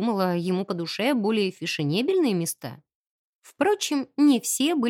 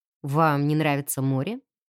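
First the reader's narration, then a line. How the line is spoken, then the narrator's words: Plain question. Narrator (Russian): спросил Чарльз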